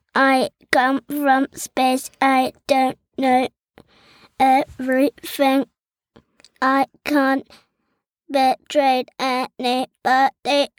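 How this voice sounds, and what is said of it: Robot voice. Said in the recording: “I can speak in a robot voice ... let's hear a robot voice”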